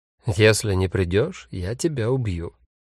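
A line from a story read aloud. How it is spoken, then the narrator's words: Quiet but clear. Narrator (Russian): Фабиан Файх, неизвестный немецкий писатель, сказал негромко, но внятно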